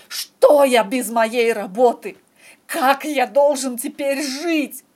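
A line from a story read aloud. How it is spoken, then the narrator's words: Nearly shouting. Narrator (Russian): почти кричал Шерлок Джону, Майкрофту, миссис Хадсон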